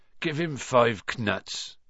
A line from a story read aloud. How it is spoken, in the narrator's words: said Hagrid sleepily